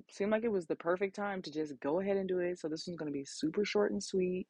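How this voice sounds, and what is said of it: Raspy late-night voice. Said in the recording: “My voice is raspy because it's literally 12:13 a.m.”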